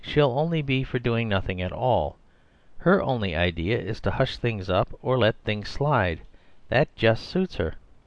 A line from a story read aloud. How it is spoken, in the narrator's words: said Diana quietly